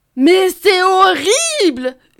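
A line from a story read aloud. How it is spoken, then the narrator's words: Wolf yelling. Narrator (French): hurle le loup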